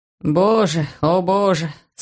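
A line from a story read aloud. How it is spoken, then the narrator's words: Moaning. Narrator (Russian): стонал он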